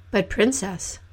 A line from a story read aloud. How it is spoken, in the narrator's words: said he